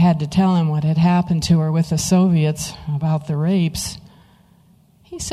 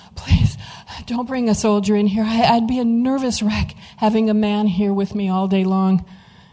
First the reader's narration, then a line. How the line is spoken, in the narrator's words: she pleaded with him